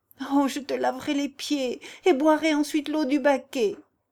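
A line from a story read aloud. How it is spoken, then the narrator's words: Inhuman anguished scream. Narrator (French): hurle douloureusement Béatrice d'une voix qui n'a plus rien d'humain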